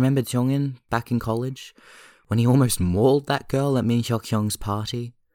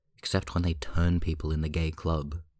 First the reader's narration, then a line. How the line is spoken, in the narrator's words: Jisung mutters morosely under his nose